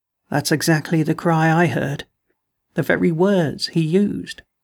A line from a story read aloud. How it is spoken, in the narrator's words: he said almost calmly